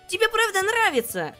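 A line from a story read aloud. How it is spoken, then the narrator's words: Exclaimed. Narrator (Russian): воскликнула Светибель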